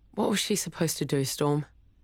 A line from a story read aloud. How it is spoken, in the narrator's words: Cabby sighed